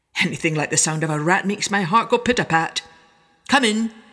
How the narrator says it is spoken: the mayor cried

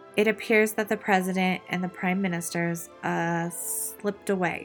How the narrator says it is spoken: After a few seconds of incoherent stammering, Commanding Officer Pendleton replied

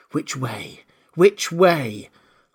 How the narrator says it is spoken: said anxiously to herself

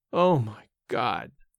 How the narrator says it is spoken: again, in his groaning voice

